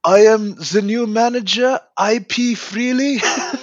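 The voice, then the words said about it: Put-on German accent. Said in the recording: “his accent shifts ever so slightly to Swiss German as opposed to Austrian German”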